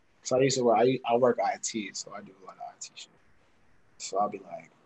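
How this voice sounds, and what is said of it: Usual voice. Nothing is said of it.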